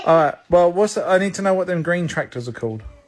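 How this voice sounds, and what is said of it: British accent. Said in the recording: “British dad, Alabama son. And you might think British dad, that accent is going to be passed down. Oh, no, absolutely not. There's quite the difference.”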